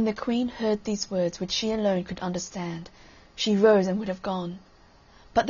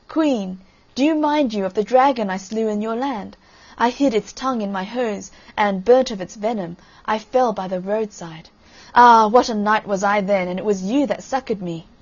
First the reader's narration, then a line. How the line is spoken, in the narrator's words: the fool still laughed and cried